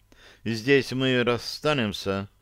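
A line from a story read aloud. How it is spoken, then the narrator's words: Plain. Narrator (Russian): сказала она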